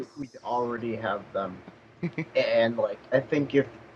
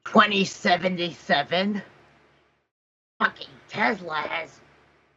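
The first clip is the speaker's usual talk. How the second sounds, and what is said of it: Imitates a gruff angry reviewer voice. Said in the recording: “Why am I doing this voice? ... I sound sometimes like AVGN.”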